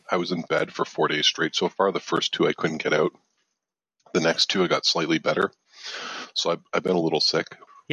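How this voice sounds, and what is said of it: Raspy voice. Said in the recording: “my voice is kind of raspy ... I noticed your voice is kind of raspy ... with this raspy voice ... Sexy raspy”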